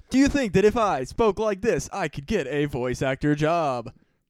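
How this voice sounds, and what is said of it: Fake announcer voice. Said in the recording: “I like my fake announcer voice... What if I just did the whole podcast like this?”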